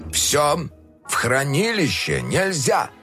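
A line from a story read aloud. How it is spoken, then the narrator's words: Stern. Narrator (Russian): строго произнес док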